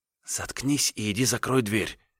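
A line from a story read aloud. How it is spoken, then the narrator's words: Heated whisper. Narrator (Russian): горячо прошептала она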